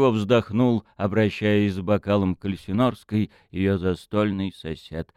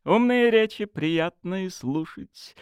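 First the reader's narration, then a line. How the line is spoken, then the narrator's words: Laughing. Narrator (Russian): рассмеялась она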